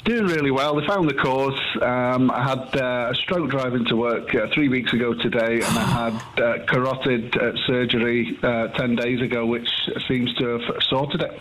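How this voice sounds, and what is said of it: Manchester English accent. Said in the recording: “Originally from Manchester. ... Love the accent.”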